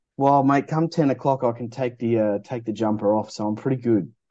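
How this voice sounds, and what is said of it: Broad northern Australian accent. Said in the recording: “I've always imagined your accent, and I never realised how different Australian accents were ... people up top end like you guys that sounded like bogans”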